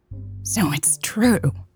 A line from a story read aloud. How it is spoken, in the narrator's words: Betty gasped